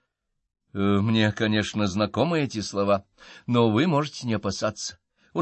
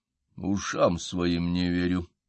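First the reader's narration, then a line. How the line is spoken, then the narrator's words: Muttered. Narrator (Russian): пробормотал я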